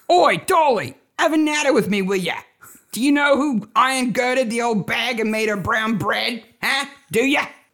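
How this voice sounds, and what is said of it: Exaggerated Cockney accent. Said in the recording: “Poirot doing a Cockney accent ... That's Cockney”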